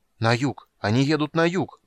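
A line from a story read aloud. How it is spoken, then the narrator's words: Excited crowd clamor. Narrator (Russian): взволнованно загомонили вокруг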